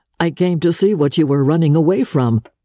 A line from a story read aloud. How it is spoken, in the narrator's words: he laughed and answered